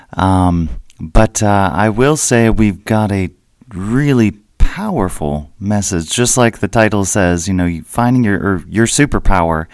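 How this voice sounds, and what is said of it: Voice lower than usual. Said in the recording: “I know it doesn't sound like me ... I uh, just kind of woke up and my voice was uh, a little bit lower than normal.”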